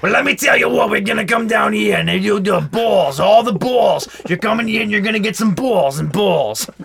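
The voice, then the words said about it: Weird New York accent impression. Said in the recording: “talking in like a weird New York accent the whole time”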